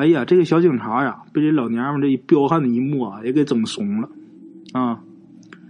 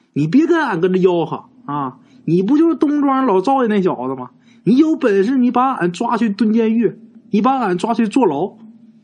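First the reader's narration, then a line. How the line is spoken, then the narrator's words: Shouting. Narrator (Chinese): 你就跟这警察喊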